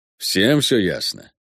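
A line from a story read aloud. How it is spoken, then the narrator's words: Hoarse question. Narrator (Russian): хрипло осведомляется Панас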